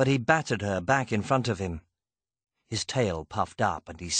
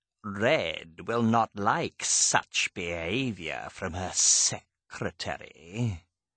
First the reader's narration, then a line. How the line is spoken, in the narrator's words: the cat hissed